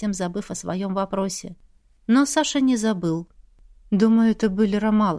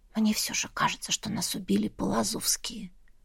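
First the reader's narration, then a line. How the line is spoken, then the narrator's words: Barely audible speech. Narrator (Russian): едва слышно проговорила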